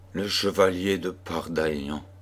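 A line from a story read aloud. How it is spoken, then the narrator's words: Overwhelmed murmur. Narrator (French): murmura-t-elle avec accablement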